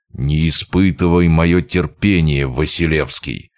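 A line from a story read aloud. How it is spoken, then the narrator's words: Growl, losing composure. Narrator (Russian): прорычал, на мгновение потеряв самообладание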